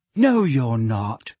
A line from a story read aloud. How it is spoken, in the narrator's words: said Ginny sharply